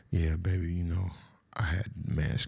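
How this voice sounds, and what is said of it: Put-on sexy voice. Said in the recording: “You gotta put the sexy voice on.”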